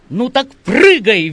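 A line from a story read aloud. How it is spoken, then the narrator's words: Cheerful, desperate shout. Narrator (Russian): весело вдруг и с какой-то отчаянностью закричал Перфилий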